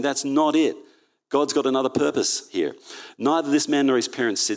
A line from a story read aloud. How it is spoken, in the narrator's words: said Jesus